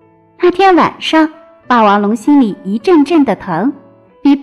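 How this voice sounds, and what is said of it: Usual voice. Nothing is said of it.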